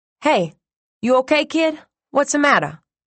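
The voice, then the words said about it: New York accent. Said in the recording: “The accent was all New York.”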